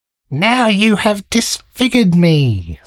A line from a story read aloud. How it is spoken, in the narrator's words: screamed the dwarf